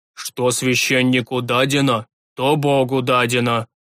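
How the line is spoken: Old man growling. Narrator (Russian): Рыкнул старик

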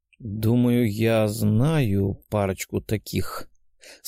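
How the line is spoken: Doubtful drawl, servant. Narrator (Russian): с сомнением протянул слуга

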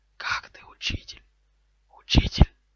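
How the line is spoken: Weak puzzled hiss. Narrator (Russian): послышалось слабое недоуменное шипение

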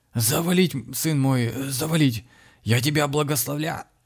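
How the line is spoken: Hoarse wheeze, dangling. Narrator (Russian): прохрипел, болтаясь в воздухе, отец Михаил

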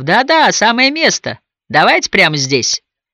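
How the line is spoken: Several voices laughing, yelling. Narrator (Russian): Захохотали и заорали на несколько голосов

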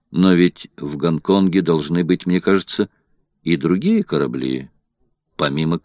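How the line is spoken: Calm. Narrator (Russian): Филиас Фок спокойно произнес

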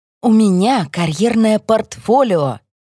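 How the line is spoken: Heartrending tone. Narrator (Russian): Говорю я своим самым душераздирающим тоном

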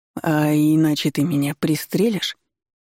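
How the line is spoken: Timid, tentative. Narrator (Russian): робко озвучил догадку Колян

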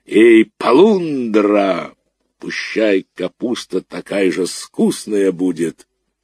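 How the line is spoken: Cracked bass shout. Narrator (Russian): он со двора крикнул треснутым басом

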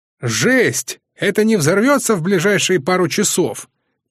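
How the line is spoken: Shouting over machine noise. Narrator (Russian): прокричал Воинов, перекрывая шум приборов

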